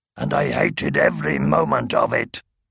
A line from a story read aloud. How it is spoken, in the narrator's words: growled